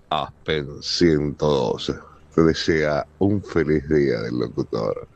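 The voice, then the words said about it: Deep radio announcer voice. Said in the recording (Spanish): “¿Qué voz, ¿no? ¿Qué voz de locutor, por Dios?”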